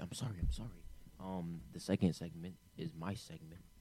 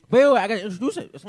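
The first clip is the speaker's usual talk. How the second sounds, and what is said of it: Yelling. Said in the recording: “Why are you yelling?”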